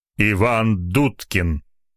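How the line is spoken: Angry reply. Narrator (Russian): зло ответил собеседник

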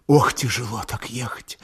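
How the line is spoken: Whisper. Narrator (Russian): шептала Аксинья

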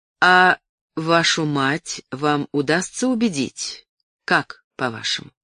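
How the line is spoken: Plain question. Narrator (Russian): спросил Джонсон

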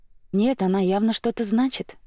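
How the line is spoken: Gentle objecting sister. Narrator (Russian): мягко возразила сестра

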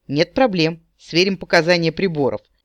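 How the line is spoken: Light laugh. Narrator (Russian): легко рассмеялся эльф

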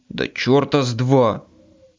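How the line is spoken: Growled. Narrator (Russian): зарычал я

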